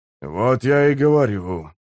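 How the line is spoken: Sighing. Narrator (Russian): вздохнул Гесслер

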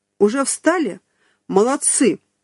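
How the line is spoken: Shouting. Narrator (Russian): закричал обвешанный фотоаппаратами

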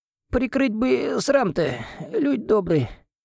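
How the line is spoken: Thin high mumble. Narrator (Russian): Пробормотал он тоненьким голоском

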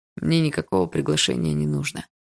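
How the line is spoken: Muffled reply. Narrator (Russian): глухо ответил тот

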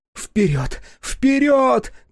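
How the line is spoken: Shouting. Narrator (Russian): кричала Шидо

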